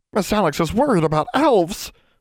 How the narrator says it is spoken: Bran gasped

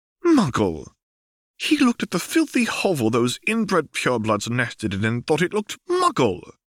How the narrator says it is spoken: Hermione exclaimed

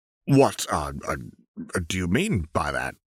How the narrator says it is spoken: stammered out

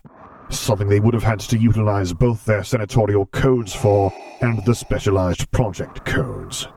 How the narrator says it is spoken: he growled out, tone resembling that of a rock slide

